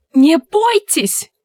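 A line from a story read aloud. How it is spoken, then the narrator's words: Shouted. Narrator (Russian): крикнуло одно из них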